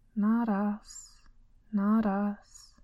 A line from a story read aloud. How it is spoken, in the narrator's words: said the prisoner known as Tuma, in a listless tone